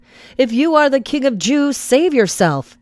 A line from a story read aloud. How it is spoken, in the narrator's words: They called out to him